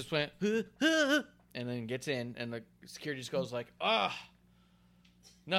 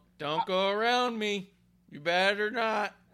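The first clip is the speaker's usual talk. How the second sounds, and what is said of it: Imitates a security guard. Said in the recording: “my security impression”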